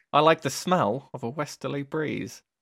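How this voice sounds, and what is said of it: Nasal Home Counties English accent. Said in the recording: “I'm doing that voice because he kind of sounds like that ... nasally home counties English accent”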